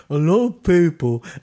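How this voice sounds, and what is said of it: Impression of Dennis Norden. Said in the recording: “This is my impersonation of Dennis Norden.”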